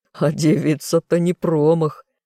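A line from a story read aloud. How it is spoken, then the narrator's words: Laughing loudly. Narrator (Russian): продолжал хохотать Амдир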